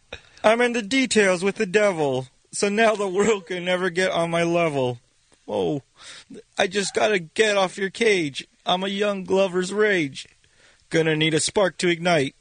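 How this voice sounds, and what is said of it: Poor impression of a singer. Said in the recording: “that was the worst impression. ... forget the impression ... the impression, not the important part”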